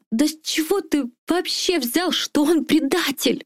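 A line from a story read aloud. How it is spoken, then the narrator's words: Tearful shout. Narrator (Russian): Не сдержавшись, выкрикнула сквозь слезы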